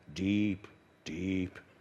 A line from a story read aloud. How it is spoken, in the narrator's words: muttered under their breath